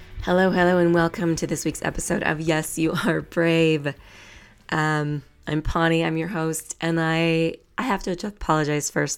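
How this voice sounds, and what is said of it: Sick, unwell-sounding voice. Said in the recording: “I was not feeling well... my voice is going to sound like this”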